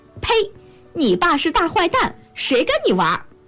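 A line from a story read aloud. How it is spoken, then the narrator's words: Calling out. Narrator (Chinese): 小猫就叫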